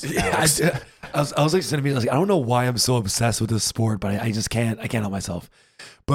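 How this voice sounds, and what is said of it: Sniffly, congested sick voice. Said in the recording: “if my voice sounds weird, I'm a little sniffly. It's because I'm a little sick”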